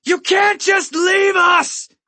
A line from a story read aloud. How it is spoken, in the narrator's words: I yell against the thick wood